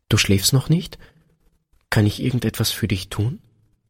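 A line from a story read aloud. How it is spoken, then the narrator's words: Hesitant soft question. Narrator (German): Einen Augenblick zögerte Peter, dann fragte er leise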